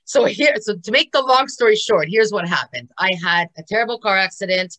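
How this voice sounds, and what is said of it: Noticeable non-native English accent. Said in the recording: “I can't even speak English here. Oh my God, here we go. Here we go with the accent.”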